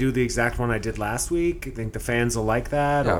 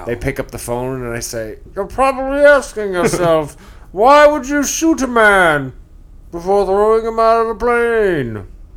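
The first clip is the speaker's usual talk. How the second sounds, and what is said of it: Imitates the movie villain Bane's voice. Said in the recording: “I will do my Bane impression. ... As you know, it's spot on.”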